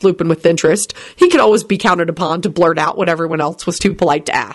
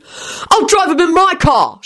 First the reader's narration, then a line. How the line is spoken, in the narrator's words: shouted William, who'd been watching this little exchange with great dismay